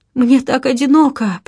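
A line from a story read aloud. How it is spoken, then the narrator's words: Sobbing. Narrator (Russian): прорыдала Роза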